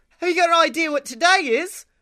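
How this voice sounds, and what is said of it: Poor put-on Australian accent. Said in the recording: “that's the worst Australian accent I've ever heard... It was a very quickly done one”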